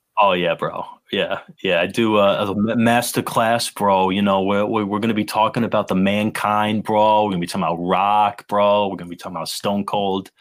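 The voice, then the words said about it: Thick New York accent. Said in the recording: “you say bro like 600 times and like do that thick New Yorker accent”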